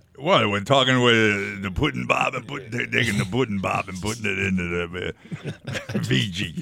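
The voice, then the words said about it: Imitates another person's voice. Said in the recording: “your Bill Cosby impression”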